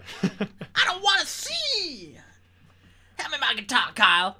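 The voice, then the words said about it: Imitates another person's voice, shouted rock singing. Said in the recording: “Very different version if it was Jack Black. School of Rock version ... terrible ... terrible impression ... Awful”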